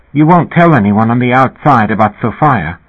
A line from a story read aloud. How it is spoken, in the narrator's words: Linda had said anxiously